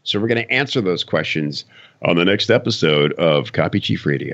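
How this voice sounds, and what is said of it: Polished radio announcer voice. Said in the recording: “listen to that radio voice kicking in”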